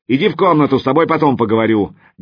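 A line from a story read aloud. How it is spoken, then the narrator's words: Barking shout. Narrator (Russian): гаркнул он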